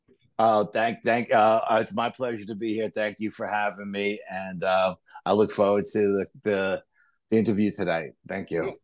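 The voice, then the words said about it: New York accent. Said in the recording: “the New York accent”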